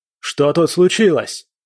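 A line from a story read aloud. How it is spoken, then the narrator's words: Shout. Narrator (Russian): крикнул кто-то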